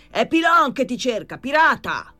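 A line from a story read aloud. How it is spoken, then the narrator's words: Shouting again. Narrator (Italian): tornò a gridare Pilon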